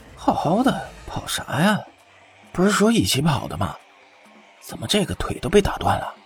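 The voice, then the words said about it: Quiet muttering voice. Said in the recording (Chinese): “有人在小声嘀咕着”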